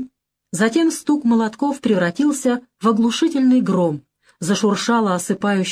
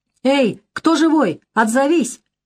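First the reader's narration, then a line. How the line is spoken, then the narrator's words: Distant shout. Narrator (Russian): крикнули с той стороны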